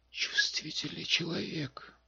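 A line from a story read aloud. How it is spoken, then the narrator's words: Muttering. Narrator (Russian): пробормотал дракон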